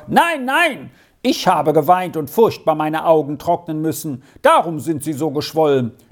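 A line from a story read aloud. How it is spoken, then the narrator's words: Calling out. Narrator (German): Es war Arthur, der so gerufen hatte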